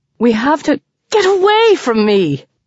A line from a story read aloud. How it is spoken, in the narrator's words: with a wail